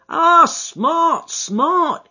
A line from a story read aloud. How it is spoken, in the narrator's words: he cried in a kind of ecstasy of delight